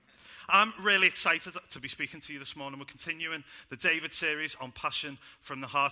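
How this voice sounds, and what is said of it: Speaks with a noticeable accent. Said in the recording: “that they don't struggle with my accent.”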